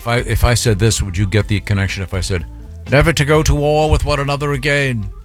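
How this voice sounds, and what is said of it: Weak put-on British accent. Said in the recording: “That's kind of a weak British accent out of you.”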